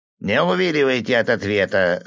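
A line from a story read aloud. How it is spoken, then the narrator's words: Stern. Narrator (Russian): строго сказал сапожник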